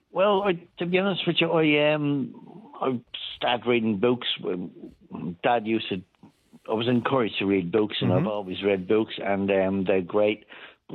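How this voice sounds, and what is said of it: Speaks with a foreign accent. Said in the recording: “I can detect from your accent alone”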